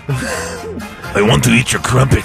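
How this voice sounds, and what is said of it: Failed German accent, Strong Bad voice. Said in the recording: “That was my attempt at a German accent, okay, and I went straight Strong Bad. Yeah. It didn't work at all.”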